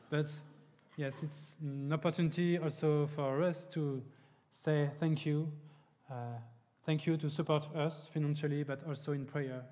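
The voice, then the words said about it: French accent in English. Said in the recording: “I will try my best to speak good English, but you can notice my French accent.”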